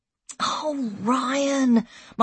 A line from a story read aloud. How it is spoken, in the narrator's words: my mum sighed, exhausted